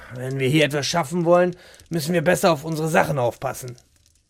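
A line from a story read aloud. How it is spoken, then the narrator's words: Muttering to himself. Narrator (German): murmelte er vor sich hin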